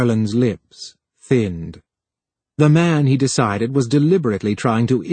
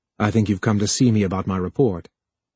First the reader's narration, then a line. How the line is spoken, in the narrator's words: Harlan said flatly